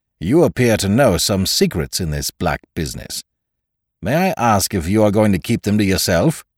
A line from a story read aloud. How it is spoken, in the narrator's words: said the physician harshly